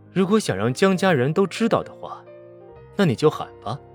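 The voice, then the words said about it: Pleasant, seductive male voice. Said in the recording (Chinese): “一个男人好听而又邪魅的声音”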